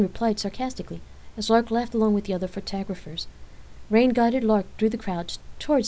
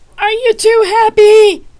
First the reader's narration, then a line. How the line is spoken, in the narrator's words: someone shouted